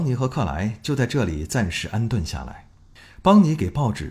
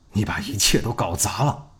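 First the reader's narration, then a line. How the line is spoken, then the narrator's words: Angry. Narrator (Chinese): 他怒气冲冲的对儿子说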